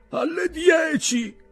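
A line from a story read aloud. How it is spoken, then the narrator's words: Shout. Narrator (Italian): gridò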